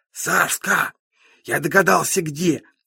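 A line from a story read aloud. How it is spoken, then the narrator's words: Dramatic whisper. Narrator (Russian): страшным шепотом говорит Зука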